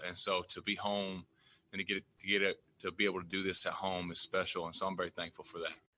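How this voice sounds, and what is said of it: Texas twang accent. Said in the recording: “I love hearing that twang... He's got that Texas twang as well”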